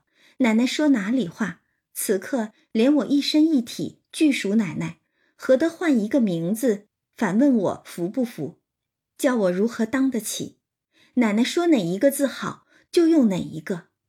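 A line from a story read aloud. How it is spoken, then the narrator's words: Hasty laughing. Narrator (Chinese): 香菱便忙笑道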